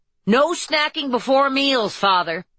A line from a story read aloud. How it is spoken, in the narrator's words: called out